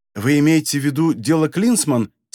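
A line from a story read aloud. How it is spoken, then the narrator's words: Plain. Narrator (Russian): спросила она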